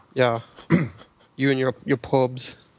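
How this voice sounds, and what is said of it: Quite good put-on Irish accent. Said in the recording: “That was actually quite a good Irish accent there.”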